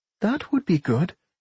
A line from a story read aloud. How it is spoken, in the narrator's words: Rowan said brightly